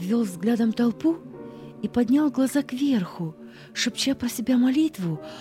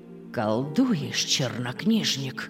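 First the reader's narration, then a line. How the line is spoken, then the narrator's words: Hissing. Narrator (Russian): зашипел на него Паисий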